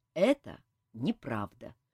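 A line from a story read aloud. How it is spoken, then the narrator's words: Calm. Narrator (Russian): спокойно ответил Кантор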